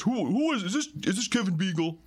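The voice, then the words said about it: Imitates another person's voice. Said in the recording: “good impression... That's, that's not just him doing a cartoon voice, that's a fairly solid ... pretty good, voice”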